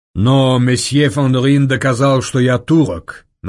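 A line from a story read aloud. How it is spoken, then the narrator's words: Mocking. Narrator (Russian): насмешливо ответил Девре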